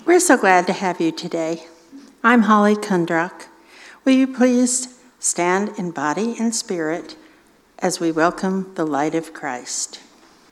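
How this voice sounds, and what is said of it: Slightly hoarse, croaky voice. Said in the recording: “I have a little frog in my throat too”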